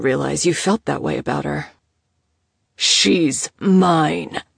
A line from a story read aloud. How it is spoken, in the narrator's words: Oscar snarled